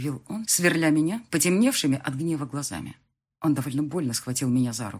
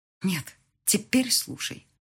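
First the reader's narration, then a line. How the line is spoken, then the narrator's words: Hiss. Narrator (Russian): прошипела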